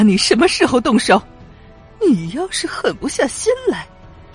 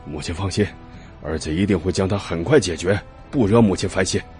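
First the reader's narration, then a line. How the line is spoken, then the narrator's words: Through gritted teeth. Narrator (Chinese): 老夫人咬牙切齿的说道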